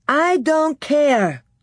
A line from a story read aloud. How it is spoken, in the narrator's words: said Laura loudly and bravely